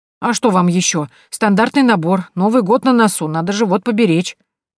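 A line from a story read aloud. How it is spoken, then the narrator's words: Grumbling. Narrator (Russian): проворчал он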